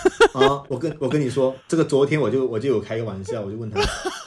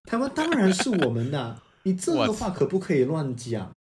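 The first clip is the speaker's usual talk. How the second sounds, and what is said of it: Imitated tone of another speaker. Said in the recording (Chinese): “我模仿一下语气”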